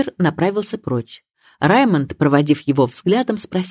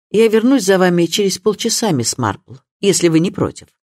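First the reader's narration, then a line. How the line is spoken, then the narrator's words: Curt tone. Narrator (Russian): Суперинтендант Харпер отрывистым тоном произнес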